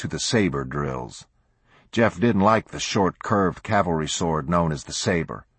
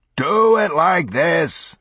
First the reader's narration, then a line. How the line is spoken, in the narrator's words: bellowed Lieutenant Foss, a tall, leather-faced Coloradoan